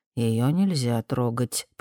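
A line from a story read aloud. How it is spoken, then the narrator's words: Whisper into ear. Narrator (Russian): прошептал Стентон Мэй в ухо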